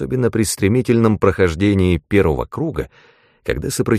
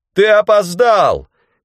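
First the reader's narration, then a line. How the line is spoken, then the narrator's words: Shouted. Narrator (Russian): крикнул мне Бранд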